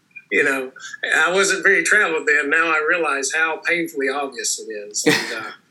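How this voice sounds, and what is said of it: Rural Tennessee Southern accent. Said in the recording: “They immediately pegged me because of my accent. ... Oh, are you from Tennessee or Georgia? I'm like, Tennessee! ... I'm from a rural area, so even my accent's not indicative of the populace at large”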